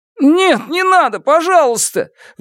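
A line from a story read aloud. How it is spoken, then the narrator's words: Pleading. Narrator (Russian): взмолился Черныш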